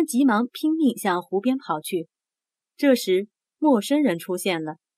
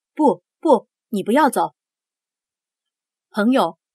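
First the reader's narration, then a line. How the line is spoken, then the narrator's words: Calling out. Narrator (Chinese): 赫伯特叫道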